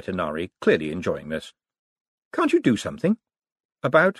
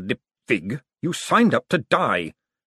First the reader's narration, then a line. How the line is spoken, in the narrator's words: snapped Vetinari, his voice suddenly as cold and deadly as a falling icicle